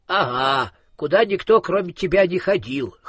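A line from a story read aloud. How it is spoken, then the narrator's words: Child's snort. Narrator (Russian): хмыкнул малыш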